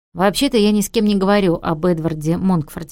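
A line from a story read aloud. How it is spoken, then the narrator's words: Plain. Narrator (Russian): говорит он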